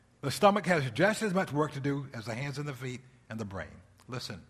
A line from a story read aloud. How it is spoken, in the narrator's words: said